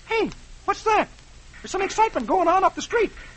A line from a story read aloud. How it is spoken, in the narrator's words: Dagwood exclaims